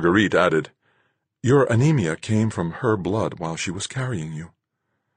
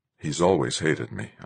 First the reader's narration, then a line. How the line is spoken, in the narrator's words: I said in a whisper